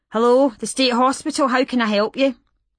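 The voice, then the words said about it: Glasgow accent, middle-aged female voice. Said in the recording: “A Glasgow accent. Middle-aged, female.”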